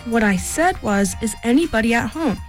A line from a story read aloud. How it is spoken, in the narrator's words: He called out, very loudly